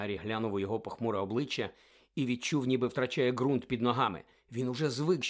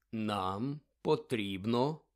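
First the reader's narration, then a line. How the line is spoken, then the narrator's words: Slow speech. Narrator (Ukrainian): повільно проказав Дамблдор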